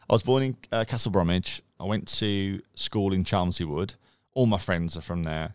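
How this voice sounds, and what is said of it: Birmingham accent. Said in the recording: “Birmingham born and bred. You can probably tell from the accent”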